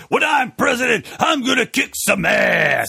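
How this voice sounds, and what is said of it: Blustery pro-wrestler style impression. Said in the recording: “I was talking like a professional wrestler, so I'm doing, like, a blustery impression”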